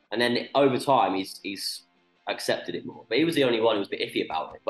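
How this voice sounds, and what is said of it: British accent. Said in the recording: “tone down like your accent a bit ... I know we're all from the UK, but let's not try and overdo it”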